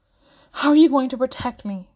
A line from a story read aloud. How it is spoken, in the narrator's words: Trevor blurts out